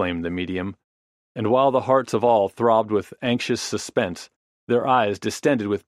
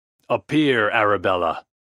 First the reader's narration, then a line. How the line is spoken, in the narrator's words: he exclaimed, in a commanding voice